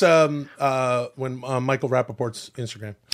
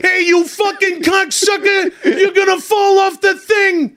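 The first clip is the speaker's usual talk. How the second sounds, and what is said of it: Imitates another person's voice, shouting. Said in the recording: “That's my impersonation.”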